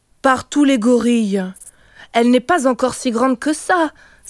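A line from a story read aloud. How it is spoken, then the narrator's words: Alarmed cry. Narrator (French): s'écria Kijivu effaré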